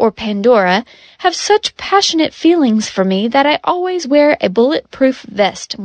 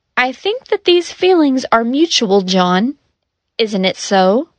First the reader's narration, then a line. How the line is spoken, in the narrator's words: Rost said